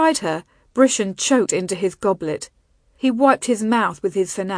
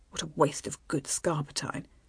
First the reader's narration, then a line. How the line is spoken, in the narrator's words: he muttered under his breath